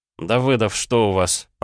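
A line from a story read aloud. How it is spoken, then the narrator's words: Tired. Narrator (Russian): проговорил я устало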